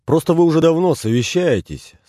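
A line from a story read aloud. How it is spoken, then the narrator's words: Cheerful. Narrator (Russian): сказал он весело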